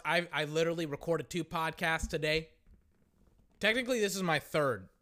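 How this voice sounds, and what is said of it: Worn-out, fading voice. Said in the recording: “It's like my voice is gone, man.”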